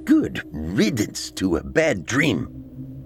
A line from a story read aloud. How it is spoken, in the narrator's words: he spat